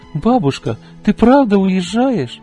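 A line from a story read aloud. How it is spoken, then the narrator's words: Shouting. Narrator (Russian): закричала она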